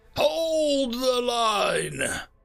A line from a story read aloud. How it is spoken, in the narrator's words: the next lines roared out